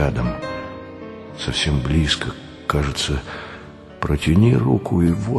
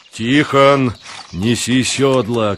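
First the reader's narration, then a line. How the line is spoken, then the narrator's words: Shout. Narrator (Russian): крикнул Савва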